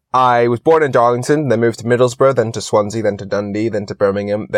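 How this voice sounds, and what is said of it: Mixed British and American accent. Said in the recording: “My accent is what I call messed up ... my accent is just confused ... the American ... a Californian sort of accent”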